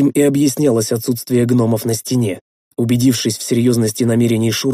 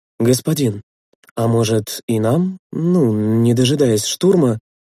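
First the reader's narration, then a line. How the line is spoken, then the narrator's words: Timid suggestion. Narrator (Russian): робко предложил Лидас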